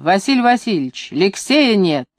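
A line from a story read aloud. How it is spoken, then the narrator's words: Shouting. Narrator (Russian): Нянька Евгения закричала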